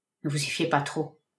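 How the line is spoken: Murmuring. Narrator (French): murmura le détective

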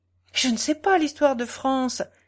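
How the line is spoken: Exclaimed. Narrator (French): s'écria Soudry

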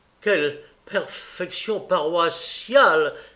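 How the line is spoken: Exclaiming. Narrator (French): s'écria M

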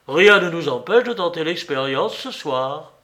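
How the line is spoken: Exclaimed. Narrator (French): s'écria Fabreguette

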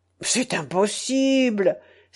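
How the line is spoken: Feigned astonished exclamation. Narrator (French): s'écria le prince Jean en feignant l'étonnement

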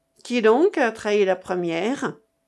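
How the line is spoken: Low muffled voice. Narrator (French): demanda la Vaubourg d'une voix sourde

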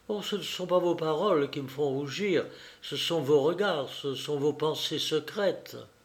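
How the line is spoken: Murmur. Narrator (French): elle murmura

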